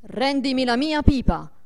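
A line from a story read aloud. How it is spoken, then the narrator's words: Menacing imperious shout. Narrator (Italian): una voce minacciosa che gli gridò imperiosamente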